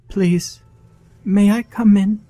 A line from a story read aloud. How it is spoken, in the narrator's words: the little girl asked sweetly